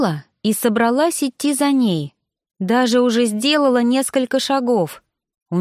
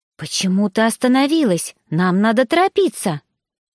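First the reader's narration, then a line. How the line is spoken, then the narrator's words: Displeased hissing, girl. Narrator (Russian): Девушка недовольно зашипела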